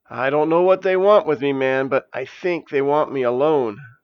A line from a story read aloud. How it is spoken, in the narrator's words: said Janice in a trembling voice